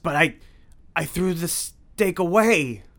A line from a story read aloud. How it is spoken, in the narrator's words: he gasped